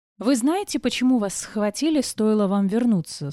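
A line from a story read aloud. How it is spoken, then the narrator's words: Calm question. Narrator (Russian): спокойно спросила я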